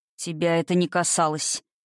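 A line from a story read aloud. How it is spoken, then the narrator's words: Weary father. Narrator (Russian): Устало ответил отец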